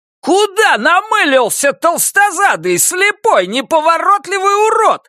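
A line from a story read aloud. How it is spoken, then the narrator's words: Shrieking. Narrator (Russian): завизжал я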